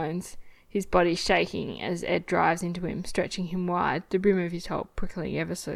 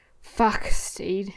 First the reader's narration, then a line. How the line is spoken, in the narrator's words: Ed grunts